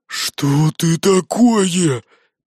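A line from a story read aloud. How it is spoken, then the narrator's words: Shocked hoarse rasp. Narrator (Russian): прохрипел Гогор, в шоке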